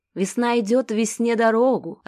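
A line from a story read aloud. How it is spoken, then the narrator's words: Joyful deep voice. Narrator (Russian): радостно пробасил Геныч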